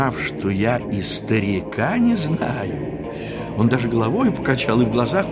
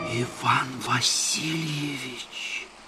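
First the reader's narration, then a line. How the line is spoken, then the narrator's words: Whisper. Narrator (Russian): шепнул он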